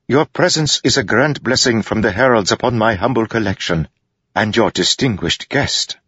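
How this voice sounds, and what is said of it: Lofty foreign accent. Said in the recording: “speaking with a lofty accent similar to Sigzil's”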